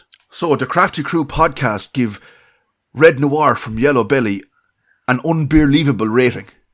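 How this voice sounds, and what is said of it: Put-on Wexford Irish accent. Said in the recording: “with the accent of that county ... his best Wexford accent”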